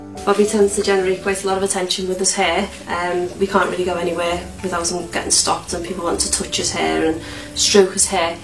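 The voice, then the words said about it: Woman speaking with an accent. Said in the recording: “listen to Mom's accent”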